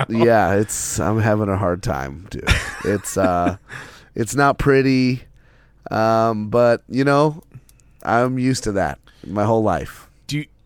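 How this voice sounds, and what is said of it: Hoarse, vocal-fry voice. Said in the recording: “my voice is way sexier than yours right now... You have a little vocal fry situation going on right now.”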